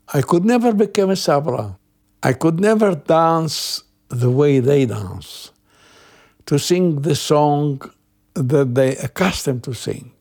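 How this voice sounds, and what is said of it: Arabic accent. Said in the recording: “My accent was an Arabic accent till now.”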